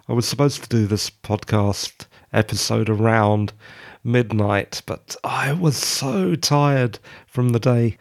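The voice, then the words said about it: Croaky, just-woken-up voice. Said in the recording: “sorry if I sound a bit croaky, it's just that I woke up from a nap ... croaky voice or not”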